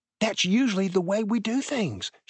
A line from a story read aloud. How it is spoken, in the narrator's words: she whispered back